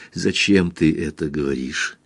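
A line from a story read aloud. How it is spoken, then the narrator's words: Whisper. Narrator (Russian): прошептала она немного спустя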